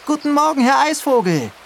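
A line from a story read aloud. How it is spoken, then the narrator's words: Cheerful call after someone. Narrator (German): ruft Mama ihm gut gelaunt nach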